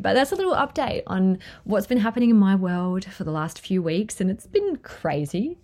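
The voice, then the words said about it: Teary, emotional voice. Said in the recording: “I'm getting teary”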